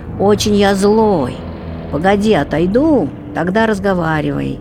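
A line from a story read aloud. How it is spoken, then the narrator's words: Snorting, shouting. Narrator (Russian): Фыркнул овинник, кричит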